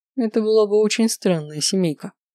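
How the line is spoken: Short laugh. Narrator (Russian): хохотнул Лео

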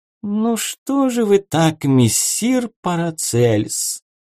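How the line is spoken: Melodic singsong. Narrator (Russian): мелодичным голосом пропел он

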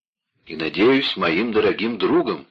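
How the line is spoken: Exclaimed. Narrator (Russian): воскликнул Моцарт

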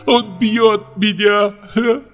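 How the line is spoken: Speaking, then breaking into sobs. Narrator (Russian): проговорила Ольга и, зарыдав

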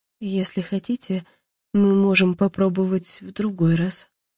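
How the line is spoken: Timid suggestion. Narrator (Russian): робко предложила Анна

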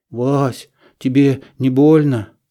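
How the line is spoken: Trembling voice. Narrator (Russian): спросил я дрожащим голосом

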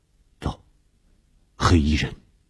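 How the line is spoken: Low voice. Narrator (Chinese): 低声地说

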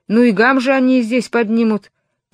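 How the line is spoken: Grumbled. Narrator (Russian): проворчал он

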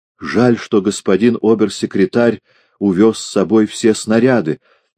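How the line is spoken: Cheerful exclamation. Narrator (Russian): весело воскликнул хозяин

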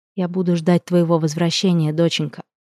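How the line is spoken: Soft and tender. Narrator (Russian): мягко, ласково произнесла Астия

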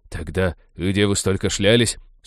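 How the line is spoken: Grumbling. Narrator (Russian): Сукаризный проворчал Натан

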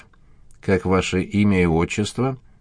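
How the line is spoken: Cold. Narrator (Russian): проговорила она холодно

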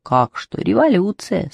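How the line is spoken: Calm reply. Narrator (Russian): спокойно ответил Ёшкин кот

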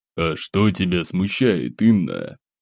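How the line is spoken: Hoarse bass voice. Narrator (Russian): Хриплым басом ответил Пожарский

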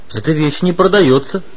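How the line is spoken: Stern peasant. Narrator (Russian): строго сказал крестьянин

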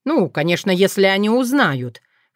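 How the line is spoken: Snorting. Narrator (Russian): фыркнул Уртян

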